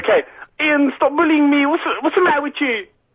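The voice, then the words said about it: Imitates another person's voice. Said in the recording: “you're doing a Yasser impression”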